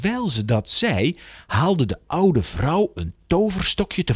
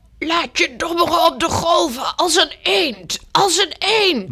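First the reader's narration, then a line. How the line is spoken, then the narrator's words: Called out. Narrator (Dutch): Ze riep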